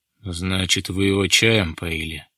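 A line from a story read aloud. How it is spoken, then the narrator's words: Displeased voice. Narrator (Russian): недовольным голосом произнес Резунов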